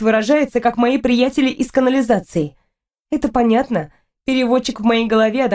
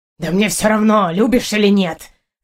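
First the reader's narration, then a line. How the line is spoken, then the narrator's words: Hissing. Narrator (Russian): зашипел на меня Партур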